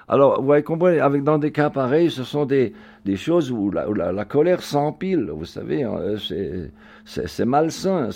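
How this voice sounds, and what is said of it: German-tinged Alsatian French accent. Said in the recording (French): “mon accent ... avec un accent allemand ... il a pris des leçons pour perdre son accent. Et moi, je l'ai gardé”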